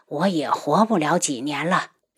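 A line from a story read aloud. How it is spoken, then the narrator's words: Sighing old woman. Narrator (Chinese): 老夫人叹了口气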